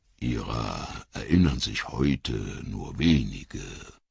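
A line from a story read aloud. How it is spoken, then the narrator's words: Murmur. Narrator (German): murmelte Tom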